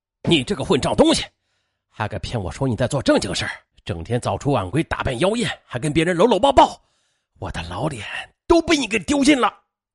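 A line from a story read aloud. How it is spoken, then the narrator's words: Trembling furious roar. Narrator (Chinese): 浑身发抖，吼道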